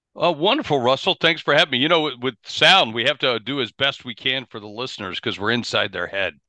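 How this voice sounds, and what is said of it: Non-British foreign accent. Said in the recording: “I can hear from your accent that you're not in the UK by the sounds of things ... it sounds as if you hail from foreign climes”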